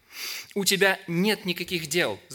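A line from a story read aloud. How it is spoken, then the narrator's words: Laughing. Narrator (Russian): засмеялась лень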